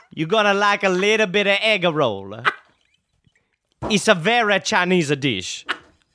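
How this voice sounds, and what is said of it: Put-on mixed Chinese-Italian accent. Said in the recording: “What is that? What is that accent? ... It's Chitalian.”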